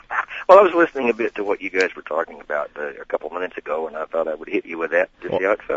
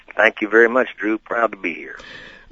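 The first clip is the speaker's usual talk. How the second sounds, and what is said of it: Put-on Texas drawl. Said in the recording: “that's some kind of Houston drawl”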